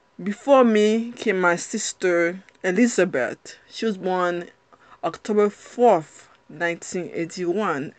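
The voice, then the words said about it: Strong Haitian accent. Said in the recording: “I have a strong accent ... clearly when I open my mouth, you can see I'm not American ... there are gonna be times that my accent is very strong”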